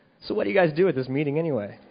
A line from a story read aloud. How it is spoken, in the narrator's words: said coolly